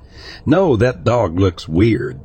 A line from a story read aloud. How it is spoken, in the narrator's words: she said